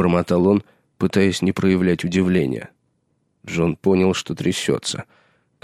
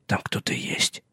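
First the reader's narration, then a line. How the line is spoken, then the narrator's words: Whispered. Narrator (Russian): прошептал он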